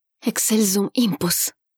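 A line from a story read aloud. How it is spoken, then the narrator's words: Whisper. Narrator (Russian): прошептал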